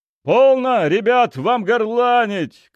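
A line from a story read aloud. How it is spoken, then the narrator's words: Shout. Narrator (Russian): крикнул я им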